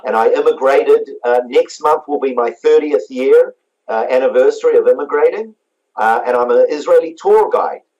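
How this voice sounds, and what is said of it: New Zealand accent. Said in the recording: “you may have guessed my accent, I was born in New Zealand.”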